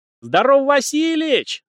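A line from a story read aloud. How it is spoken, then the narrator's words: Yelling. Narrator (Russian): заорал он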